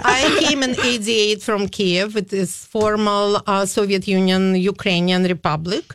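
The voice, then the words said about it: Non-native, non-Minnesotan English accent. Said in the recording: “your accent is not Minnesotan.”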